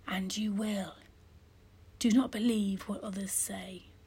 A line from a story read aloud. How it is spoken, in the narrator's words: said in a whisper that only I could hear